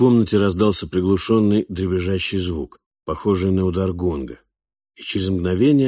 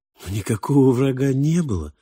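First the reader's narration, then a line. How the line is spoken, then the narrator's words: Gentle objection. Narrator (Russian): мягко возразил мальчик, словно понимая, насколько его бывший учитель и повелитель невежественный дик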